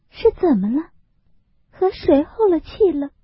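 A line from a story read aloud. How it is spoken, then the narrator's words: Repeated questions. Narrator (Chinese): 连问几声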